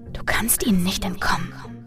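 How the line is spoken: Echoing whisper in head. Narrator (German): flüsterte eine Stimme, die wie ein Echo in meinem Kopf klang

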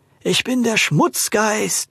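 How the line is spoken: Hollow voice. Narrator (German): sprach er mit hohler Stimme

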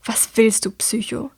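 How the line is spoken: Hissing. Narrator (German): zischt sie

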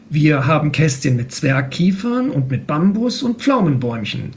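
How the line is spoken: Plain. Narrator (German): sagte Akira

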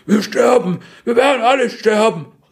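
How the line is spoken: Called out. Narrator (German): rief

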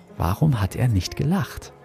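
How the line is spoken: Whispered. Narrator (German): flüsterte mir Luca zu

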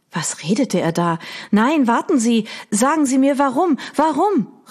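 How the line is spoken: Calling out. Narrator (German): rief Audrey

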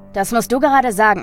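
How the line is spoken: Mocking. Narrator (German): spottete der Elektriker

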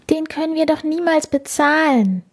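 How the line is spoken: Sighing. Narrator (German): seufzte Felice

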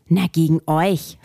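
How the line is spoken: Furious hiss. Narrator (German): fauchte Robert, der richtig in Rage geriet

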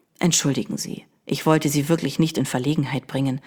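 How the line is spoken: Stranger speaking softly. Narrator (German): sagte der Fremde leise

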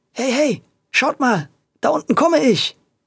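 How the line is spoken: Excited call. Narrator (German): rief er aufgeregt

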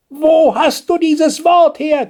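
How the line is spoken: Grandmother shrieking. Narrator (German): kreischte die Nobeloma

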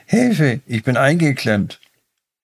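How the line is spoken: Calling out. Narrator (German): rief Max

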